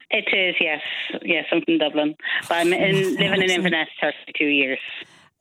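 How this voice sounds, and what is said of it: Dublin Irish accent. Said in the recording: “so that's a Dublin accent”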